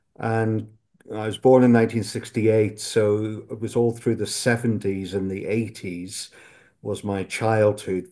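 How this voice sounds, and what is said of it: Northern Irish accent. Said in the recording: “I hope you can still hear a bit in my accent that I'm not English by background. I'm Irish, grew up in Northern Ireland”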